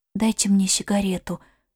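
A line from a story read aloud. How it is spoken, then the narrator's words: Whisper. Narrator (Russian): сказала Ивга шепотом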